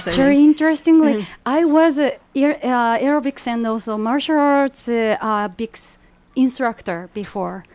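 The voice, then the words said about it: Japanese accent. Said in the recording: “From your accent, you are obviously not from around here. ... in Japan.”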